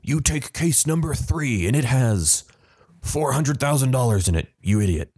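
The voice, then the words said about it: Imitates another person's voice. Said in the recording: “my Howie Mandel impression”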